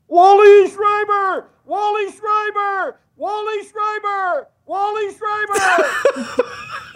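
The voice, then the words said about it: Excited sports announcer impression. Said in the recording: “my best Kevin Gallant impression”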